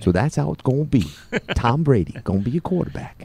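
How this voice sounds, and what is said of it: Imitates another person's voice. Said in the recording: “does impersonation.”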